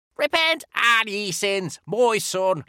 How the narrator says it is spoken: shrieked Father Out

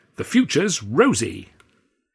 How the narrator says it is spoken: continued brightly

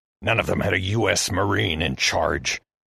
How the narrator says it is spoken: Heston hissed

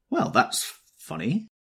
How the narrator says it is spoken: I exclaimed

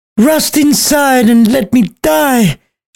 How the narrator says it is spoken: she yelled as she stabbed herself with his knife

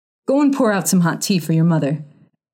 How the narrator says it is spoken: he ordered the boy sharply

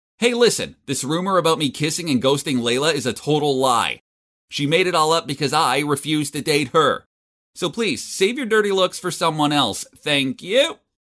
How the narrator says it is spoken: Then I shouted so everyone could hear me

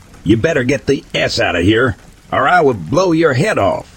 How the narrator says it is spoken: yelled out into the wind

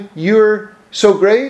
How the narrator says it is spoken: said

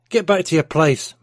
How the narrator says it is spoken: Mark shouted

